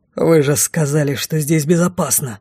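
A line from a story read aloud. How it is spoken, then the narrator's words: Growling. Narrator (Russian): прорычал его величество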